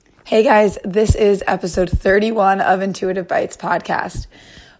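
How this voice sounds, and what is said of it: Congested voice from a cold. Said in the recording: “you can probably tell from my voice, I've been struggling with a bit of a cold”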